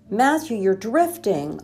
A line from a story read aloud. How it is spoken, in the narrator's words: I yelled